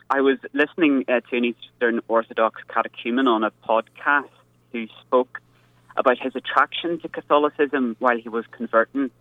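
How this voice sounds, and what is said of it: Northern Irish accent. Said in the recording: “in Belfast in Northern Ireland ... my more unusual accent”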